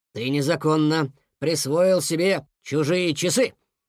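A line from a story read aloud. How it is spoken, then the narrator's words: Very stern. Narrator (Russian): очень строго сказал Фуфу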